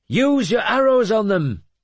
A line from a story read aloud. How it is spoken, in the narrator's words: I shouted for Cuthwulf